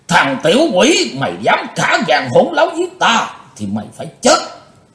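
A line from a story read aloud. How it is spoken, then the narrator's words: Panicked loud roar. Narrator (Vietnamese): Hắn hốt hoảng, gầm to lên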